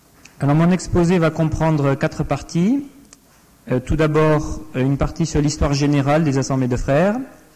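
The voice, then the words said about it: Non-local regional French accent. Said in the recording (French): “Je ne suis pas originaire de la région, sans doute que mon accent m'a trahi.”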